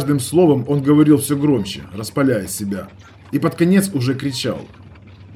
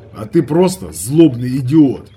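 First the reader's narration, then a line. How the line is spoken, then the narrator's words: Plain. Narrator (Russian): ответил я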